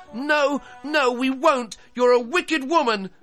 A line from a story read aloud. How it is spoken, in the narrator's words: cried Gretel